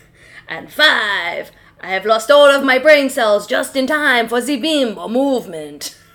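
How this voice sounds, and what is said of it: Weird attempted Italian accent. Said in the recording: “you moved into like a weird kind of what you think is an Italian accent”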